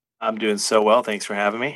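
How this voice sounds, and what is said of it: Imitates a sitcom character's voice. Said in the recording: “That was my Barney impression. It was not good.”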